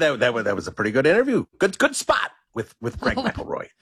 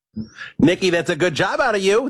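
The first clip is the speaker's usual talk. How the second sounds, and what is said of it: Mad Dog impression. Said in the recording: “is pretty good. pop on here, do an impression of Mad Dog saying good job out of you, Nikki”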